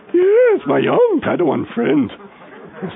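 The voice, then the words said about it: High falsetto Yoda-like character voice. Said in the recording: “it goes into my falsetto, it sounds really funny. Yoda. ... I do sound like Yoda, don't I?”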